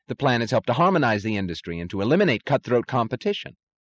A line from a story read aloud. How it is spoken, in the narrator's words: said Taggart eagerly